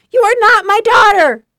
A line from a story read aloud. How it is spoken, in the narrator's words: Donna hollered